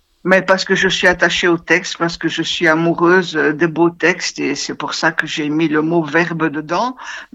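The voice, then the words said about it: Brussels French accent. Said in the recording (French): “je reconnais pas l'accent avignonnais ... Non. Ah non, c'est un accent bruxellois, effectivement.”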